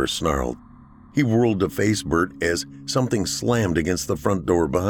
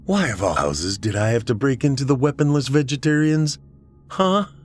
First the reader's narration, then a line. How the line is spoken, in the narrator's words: Bert scoffed at him